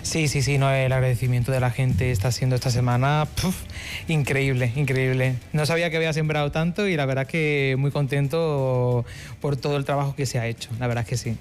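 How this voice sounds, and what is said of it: Faint Málaga Spanish accent. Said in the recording (Spanish): “el acento te delata. ¿Malagueño? ... Sí, malagueño. Sí. Aunque se ha perdido un poquito ya el acento”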